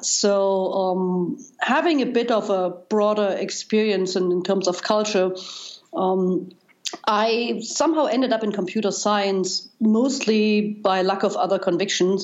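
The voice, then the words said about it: German accent. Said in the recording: “as you probably can tell by now by my accent, I, I grew up in Germany, and East Germany”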